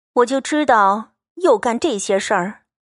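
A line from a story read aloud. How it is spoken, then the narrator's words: Sighing. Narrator (Chinese): 袭人点头叹道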